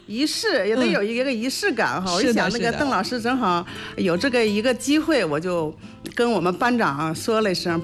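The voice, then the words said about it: Northeastern Chinese accented Mandarin. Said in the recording (Chinese): “我那普通话也不是太好 ... 东北人啊，东北口音。”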